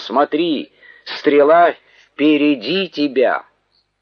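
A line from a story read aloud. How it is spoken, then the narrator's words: Shouted after someone. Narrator (Russian): закричал Иоаннафан вслед отроку и сказал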